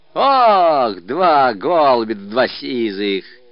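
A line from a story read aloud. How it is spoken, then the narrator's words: Shouted. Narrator (Russian): крикнул Ермошка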